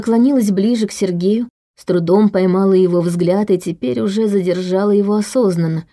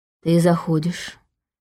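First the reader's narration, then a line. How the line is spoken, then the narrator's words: Quiet. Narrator (Russian): тихо сказала она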